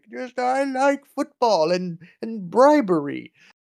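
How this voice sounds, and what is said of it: Old man voice imitating Sepp Blatter. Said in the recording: “doing his old man shtick ... I don't know why I gave him that accent.”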